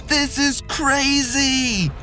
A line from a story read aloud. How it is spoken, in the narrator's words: Peyton screamed